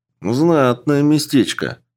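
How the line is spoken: Envious sigh. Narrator (Russian): Завистливо вздохнул Чупа-Чупс

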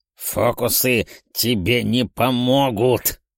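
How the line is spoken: Indignant guttural growl. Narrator (Russian): Утробус утробно зарычал от возмущения

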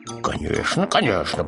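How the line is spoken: Muttering. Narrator (Russian): пробормотал сосед

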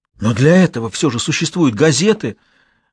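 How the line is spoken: Exclamation. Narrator (Russian): воскликнул Гансулов

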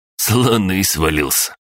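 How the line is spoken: Snorting. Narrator (Russian): хмыкнул Иваныч

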